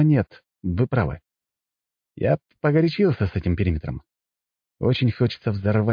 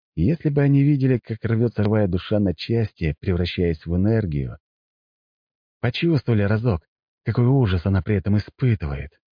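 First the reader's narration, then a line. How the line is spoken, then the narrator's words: Sighing. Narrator (Russian): вздохнул я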